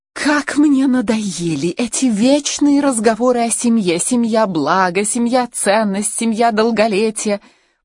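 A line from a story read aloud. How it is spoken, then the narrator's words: Near moan. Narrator (Russian): почти простонала она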